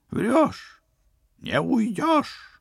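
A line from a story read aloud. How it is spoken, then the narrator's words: Furious howl. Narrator (Russian): взвыл государственный преступник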